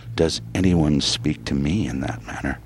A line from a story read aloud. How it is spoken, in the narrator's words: murmured